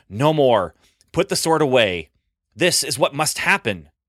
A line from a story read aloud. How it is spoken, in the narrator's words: Jesus shouting at Peter